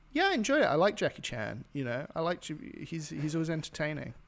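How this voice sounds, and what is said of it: Put-on Chinese accent. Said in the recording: “my impression, okay, of a Chinaman”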